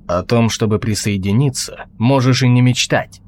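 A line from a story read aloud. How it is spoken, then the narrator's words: Angry. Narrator (Russian): зло сказал Толгрим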